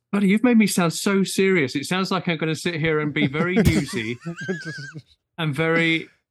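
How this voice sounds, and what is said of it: Posh BBC-style English accent. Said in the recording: “have you heard my accent? I've suddenly become terribly BBC.”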